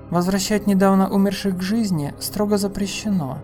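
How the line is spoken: Barely audible. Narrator (Russian): едва слышно сказал Пит

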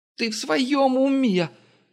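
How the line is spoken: Screaming. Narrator (Russian): завопила Юлия

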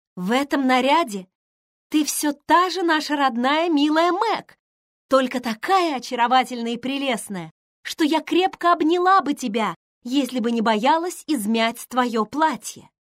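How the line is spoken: Admiring exclamation. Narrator (Russian): воскликнула Эмми, с восхищением

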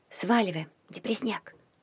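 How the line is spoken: Hoarse whisper. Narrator (Russian): шепнула Дав, с трудом узнавая свой севший голос

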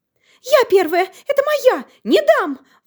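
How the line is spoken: Sudden shriek. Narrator (Russian): Вдруг взвизгнула лиса

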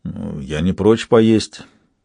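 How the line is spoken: Uncertain reply. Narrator (Russian): ответил тот неуверенно

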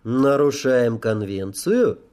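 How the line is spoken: Even-toned question. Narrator (Russian): ровным голосом спросил я

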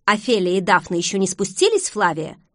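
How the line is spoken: Irritated question. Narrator (Russian): раздраженно поинтересовался он

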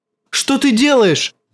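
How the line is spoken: Shouting. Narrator (Russian): закричал он

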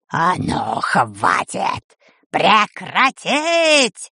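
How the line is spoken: Terrifying roar. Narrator (Russian): Страшным голосом взревела чума Дель Торт

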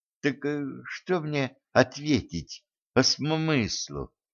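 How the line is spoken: Quiet reminder. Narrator (Russian): тихо напомнил секретарь

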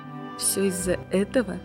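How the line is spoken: Plain. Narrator (Russian): спросил я

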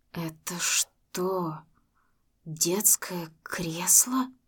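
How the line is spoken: Trembling voice. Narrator (Russian): спросил дрожащим голосом Макс

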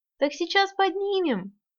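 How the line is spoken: Giggling. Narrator (Russian): хихикнула я

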